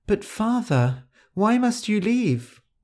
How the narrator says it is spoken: she cried

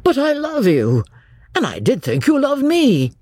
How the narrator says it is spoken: in a burst of genuine devotion he cried

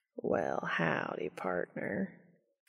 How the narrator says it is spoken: Cass drawled out

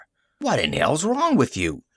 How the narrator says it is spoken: he asked indignantly

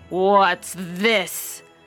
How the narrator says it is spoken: growled the father bear in his great big voice

